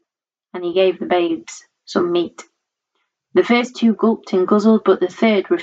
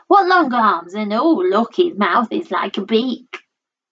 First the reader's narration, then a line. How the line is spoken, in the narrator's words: she grumbled